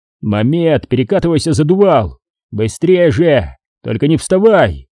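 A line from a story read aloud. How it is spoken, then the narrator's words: Shouted. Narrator (Russian): Я крикнул ему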